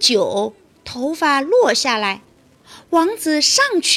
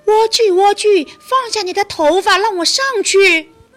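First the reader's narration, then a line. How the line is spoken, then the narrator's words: Calling out. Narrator (Chinese): 叫道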